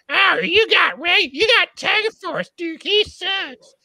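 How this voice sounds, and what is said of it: Monty Python-style old woman voice. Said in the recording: “Is that what Rob sounded like? ... I sound like a Monty Python old woman”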